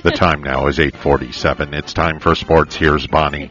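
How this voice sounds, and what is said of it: Big booming announcer voice. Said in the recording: “Can I get my big announcer voice on? ... Mr. Big Voice Announcer”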